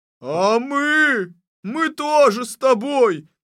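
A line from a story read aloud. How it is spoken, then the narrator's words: Male shout. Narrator (Russian): закричал Чубаров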